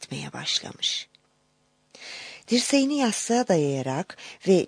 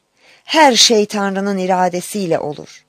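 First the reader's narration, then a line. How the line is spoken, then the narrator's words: Cried out. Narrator (Turkish): diye haykırmış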